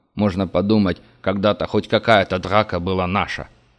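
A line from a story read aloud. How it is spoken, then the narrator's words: Scornful snort. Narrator (Russian): фыркнул Курт Шнайдер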